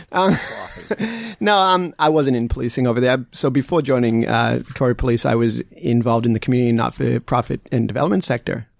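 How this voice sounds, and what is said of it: American Boston accent. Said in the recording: “that beautiful accent of yours ... what the hell's going on with your voice ... just outside of Boston ... the accent stuck around”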